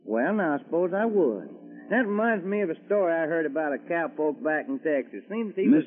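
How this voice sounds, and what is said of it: Texan drawl. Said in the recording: “do you ever get tired of that accent? ... I just talk the way folks talk in Texas ... That's Texas talk.”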